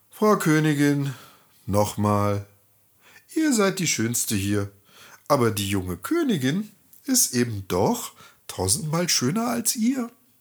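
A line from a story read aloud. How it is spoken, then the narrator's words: Sighing. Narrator (German): Der Spiegel, schon leicht eingetrübt, seufzte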